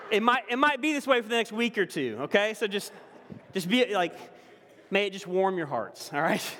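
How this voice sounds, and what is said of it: Noticeable Southern US accent. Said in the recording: “my southern accent's a little bit stronger”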